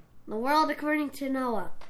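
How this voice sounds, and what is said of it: Kermit the Frog character voice. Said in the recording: “Kermit voice.”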